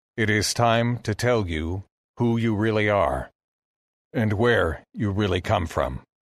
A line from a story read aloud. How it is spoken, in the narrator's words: said